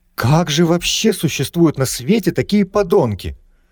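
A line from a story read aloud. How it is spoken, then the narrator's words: Indignant exclamation. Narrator (Russian): С негодованием воскликнула Рада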